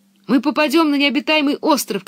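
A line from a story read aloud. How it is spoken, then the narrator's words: Shouting. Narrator (Russian): кричал он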